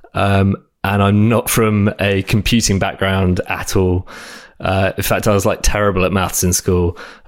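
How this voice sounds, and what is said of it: British English accent. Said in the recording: “I live in London at the moment ... as you can probably tell from my accent. ... I grew up in uh, south of England”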